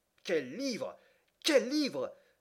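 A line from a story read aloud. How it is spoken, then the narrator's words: Exclaiming. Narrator (French): s'écriait-il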